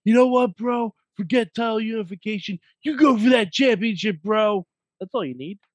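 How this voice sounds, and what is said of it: Imitates another person's voice. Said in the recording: “that was my Riddle impression. It's not going to get better”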